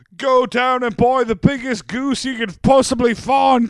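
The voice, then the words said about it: Bad put-on British accent. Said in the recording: “That was the fucking worst British accent I've ever done.”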